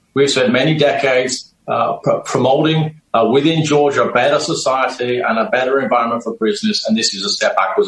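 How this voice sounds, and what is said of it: A weird accent. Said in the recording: “He's got a weird accent”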